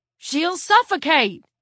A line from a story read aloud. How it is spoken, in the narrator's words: he yelled